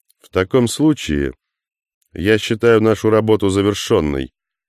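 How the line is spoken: Calm. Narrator (Russian): спокойно произнес Тейнер

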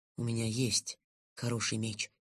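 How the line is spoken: Quiet reply. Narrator (Russian): так же тихо ответил

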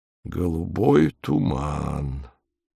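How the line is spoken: Hoarse. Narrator (Russian): сипло сказал он

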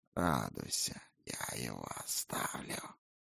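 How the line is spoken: Hoarse wheeze. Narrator (Russian): просипел Гойлс

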